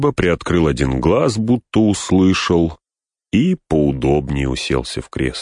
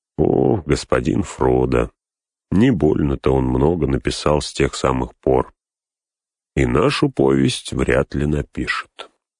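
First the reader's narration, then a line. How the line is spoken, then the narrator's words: Quiet. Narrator (Russian): Сэм тихо сказал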